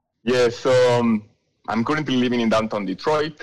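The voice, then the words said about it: British-sounding foreign accent. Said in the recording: “your accent isn't a native Michigander ... British ... It's British ... I wasn't sure if it was that or French”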